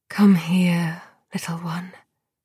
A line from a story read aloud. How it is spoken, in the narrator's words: she whispered